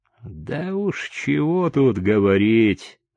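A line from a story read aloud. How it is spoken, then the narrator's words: Gloomy reply. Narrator (Russian): мрачно ответил Чика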